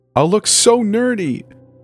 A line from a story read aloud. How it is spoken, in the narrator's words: whines